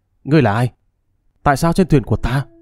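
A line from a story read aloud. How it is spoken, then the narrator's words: Hissing question. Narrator (Vietnamese): Chu Tổ Mô rít giọng hỏi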